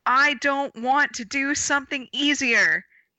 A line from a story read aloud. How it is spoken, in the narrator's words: yelled Ramona